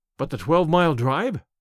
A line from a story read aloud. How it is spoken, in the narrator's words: gasped Hatherley